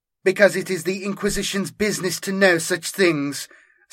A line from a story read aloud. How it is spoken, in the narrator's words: Santos snapped